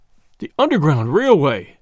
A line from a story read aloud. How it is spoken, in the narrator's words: he groaned